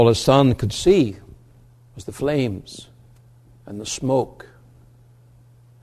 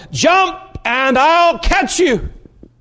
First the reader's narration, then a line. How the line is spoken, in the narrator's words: he kept yelling to his boy